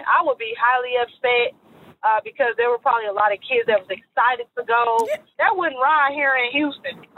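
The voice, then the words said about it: Southern US accent. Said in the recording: “You heard that Southern accent?”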